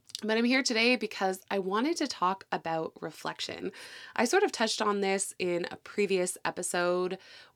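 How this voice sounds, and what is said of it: Slightly congested voice from a cold. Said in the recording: “I am getting over a bit of a cold this week ... I sound a little congested ... it still might be affecting my voice a little”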